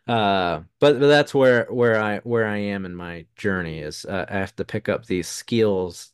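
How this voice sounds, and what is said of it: Strong southern accent. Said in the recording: “you heard my southern accent come out very strongly”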